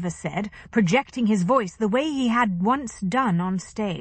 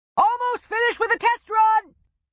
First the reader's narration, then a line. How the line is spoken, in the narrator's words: Chester yelled back